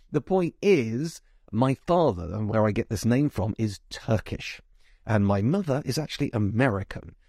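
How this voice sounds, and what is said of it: Southeast British English accent. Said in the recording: “you can tell from my accent that I've clearly been brought up in Britain, probably the southeast.”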